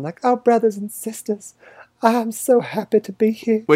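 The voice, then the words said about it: Weird Southern Belle accent impression. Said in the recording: “Speaking in this delightful Southern Belle accent all the time ... It's the weirdest accent I've ever heard you do. ... I don't do a very good accent otherwise.”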